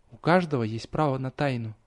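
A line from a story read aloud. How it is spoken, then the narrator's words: Girl whispering. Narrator (Russian): прошептала девочка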